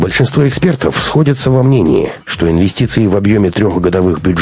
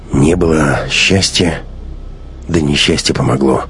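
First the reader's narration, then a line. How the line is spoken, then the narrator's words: Tearful mutter. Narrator (Russian): пробормотал отец, пряча глаза, в которых стояли слезы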